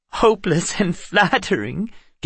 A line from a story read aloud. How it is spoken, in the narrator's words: giggled a fairy with dragonfly wings